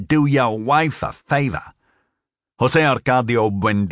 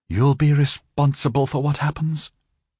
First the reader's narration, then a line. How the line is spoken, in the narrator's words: she murmured